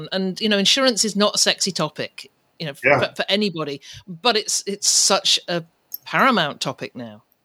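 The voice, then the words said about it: British English accent. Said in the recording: “a UK accent similar to yours. I know you're originally from the UK”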